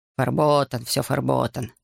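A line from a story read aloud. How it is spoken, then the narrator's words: Grumbling. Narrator (Russian): проворчал рабочий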